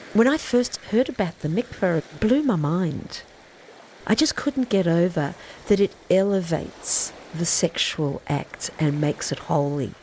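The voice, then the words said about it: Charming Australian accent. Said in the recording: “Everyone in it does have an incredibly charming Australian accent.”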